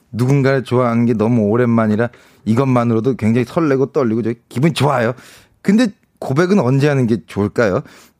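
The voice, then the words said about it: Imitates another person's voice. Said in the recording (Korean): “살짝 성유리님 성대모사가 들어가 있네요.”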